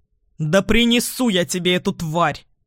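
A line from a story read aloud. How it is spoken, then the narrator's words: Snarled. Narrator (Russian): рыкнул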